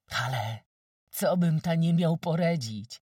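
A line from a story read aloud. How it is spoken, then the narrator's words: Exclaimed. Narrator (Polish): wykrzyknął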